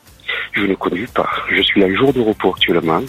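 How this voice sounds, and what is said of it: Southern French Béziers accent. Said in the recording (French): “c'est l'accent du rugby... C'est l'accent biterrois un peu”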